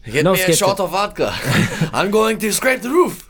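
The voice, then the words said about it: Attempted Russian accent. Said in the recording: “I don't even know how I would do a Russian accent ... I can't do a Russian accent”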